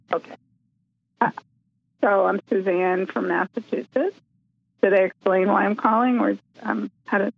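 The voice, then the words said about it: Hoarse, fading voice. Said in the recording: “I'm not sure why I'm losing my voice. I was fine a minute ago.”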